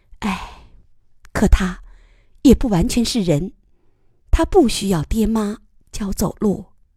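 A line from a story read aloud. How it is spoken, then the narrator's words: Soft sigh. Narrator (Chinese): 他轻声叹息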